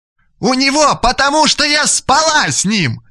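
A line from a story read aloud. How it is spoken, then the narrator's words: Triumphant shout. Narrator (Russian): торжествующе закричала Лиля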